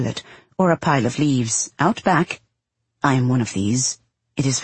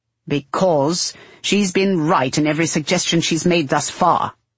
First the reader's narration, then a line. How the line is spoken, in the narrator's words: he snaps, after the third such question